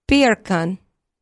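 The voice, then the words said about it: Attempted Jamaican accent. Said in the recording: “in a Jamaican accent”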